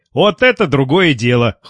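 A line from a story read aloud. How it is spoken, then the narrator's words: Cheerful speech. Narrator (Russian): бодро сказал Лев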